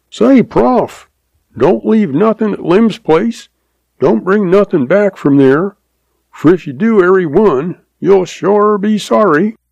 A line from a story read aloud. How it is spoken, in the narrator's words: F hollers to him and says